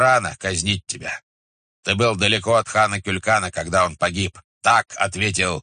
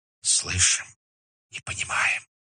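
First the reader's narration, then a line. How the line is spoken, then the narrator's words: Group whispering. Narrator (Russian): ответили шепотом монголы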